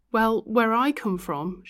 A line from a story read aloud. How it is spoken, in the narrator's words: she called out